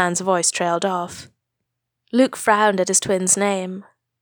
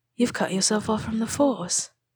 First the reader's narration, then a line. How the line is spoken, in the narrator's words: whispered, barely audible